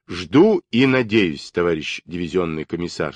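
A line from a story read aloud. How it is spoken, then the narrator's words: Plain. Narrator (Russian): сказал Даватор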